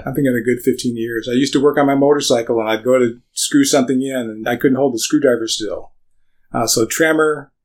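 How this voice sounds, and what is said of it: Slightly raspy, weak voice. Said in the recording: “You hear my voice is a little raspy today. ... It's a real challenge for me to project my voice on certain days”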